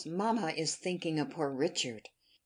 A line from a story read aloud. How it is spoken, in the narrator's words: whispered one of the girls